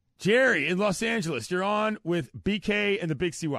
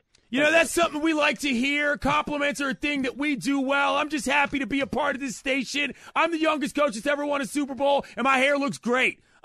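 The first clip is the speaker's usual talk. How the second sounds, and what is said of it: Loud projecting Sean McVay impression. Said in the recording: “best Sean McVay impression ... he is using his outside voice ... Always projecting to the back of the house”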